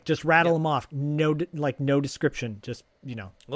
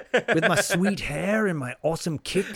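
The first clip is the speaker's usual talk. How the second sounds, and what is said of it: Poor put-on Australian accent. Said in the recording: “Why do I sound Australian right now? ... You're getting worse and worse. It's just, it's devolving. ... It's terrible.”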